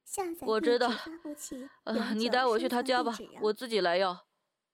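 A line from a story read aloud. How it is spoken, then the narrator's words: Heavy sigh. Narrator (Chinese): 老华大大的叹了口气，说道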